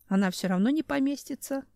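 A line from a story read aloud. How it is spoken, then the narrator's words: Nasty giggle. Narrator (Russian): гаденько хихикнул медведь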